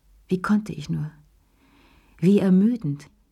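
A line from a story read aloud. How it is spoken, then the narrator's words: Sigh. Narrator (German): seufzte sie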